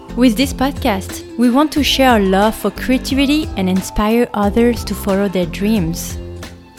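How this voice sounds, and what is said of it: French accent. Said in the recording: “Yes, you hear an accent. That's because I come from France.”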